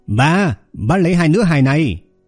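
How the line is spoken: Loud call. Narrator (Vietnamese): Chủ tiệm Liêu lớn tiếng kêu lên

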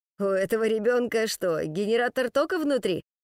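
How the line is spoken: Exhausted grumbling. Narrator (Russian): ворчал в конец запарившийся Кнуров

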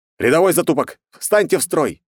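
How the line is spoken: Barked command. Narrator (Russian): рявкнул

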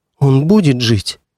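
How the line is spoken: Trembling voice question. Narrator (Russian): дрожащим голосом спросила Гавранкова

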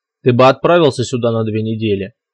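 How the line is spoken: Calm and cold. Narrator (Russian): спокойно и даже холодно ответил босс

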